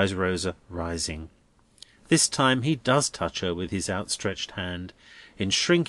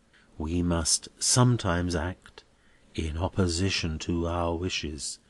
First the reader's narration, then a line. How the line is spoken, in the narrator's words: he tells her in a low voice